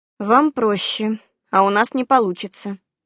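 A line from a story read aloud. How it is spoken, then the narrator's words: Sighing. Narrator (Russian): я вздохнула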